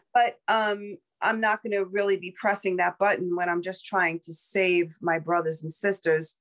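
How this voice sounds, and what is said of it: Southern American accent. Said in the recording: “a lot of Southern accent coming out on this”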